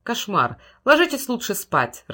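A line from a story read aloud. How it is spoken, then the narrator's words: Irritated reply. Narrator (Russian): раздраженно ответил отец Стоун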